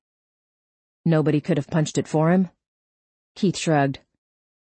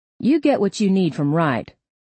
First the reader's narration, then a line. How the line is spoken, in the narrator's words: Keith said